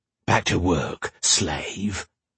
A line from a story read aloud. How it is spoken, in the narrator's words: the master growled